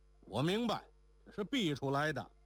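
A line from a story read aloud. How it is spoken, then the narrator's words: Shouting. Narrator (Chinese): 周七却又叫道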